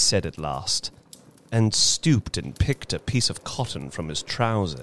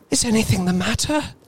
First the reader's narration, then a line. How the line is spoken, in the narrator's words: She asked breathlessly